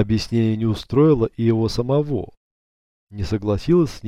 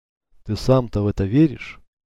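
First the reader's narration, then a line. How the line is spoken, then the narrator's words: Quiet question. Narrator (Russian): тихо спросила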